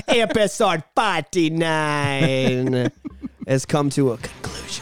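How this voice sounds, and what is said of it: Deliberately bad put-on Jamaican accent. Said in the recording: “my horrible Jamaican accent”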